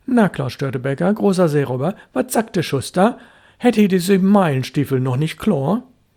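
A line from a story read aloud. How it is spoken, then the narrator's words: Thundering outburst. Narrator (German): brach es bei dem Jungen los wie ein Unwetter und er donnerte wie ein großer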